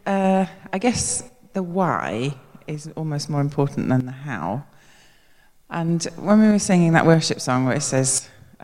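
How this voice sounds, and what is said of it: Hoarse, strained voice. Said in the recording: “Excuse my voice. I've come down with a very sore throat.”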